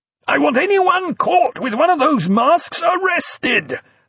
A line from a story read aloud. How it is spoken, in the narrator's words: Sutler immediately screamed in his ear